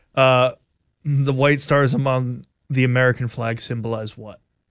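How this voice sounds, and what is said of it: Flat, monotone, unenthusiastic delivery. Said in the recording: “You sound like you have no enthusiasm for this quiz whatsoever ... Very monotone.”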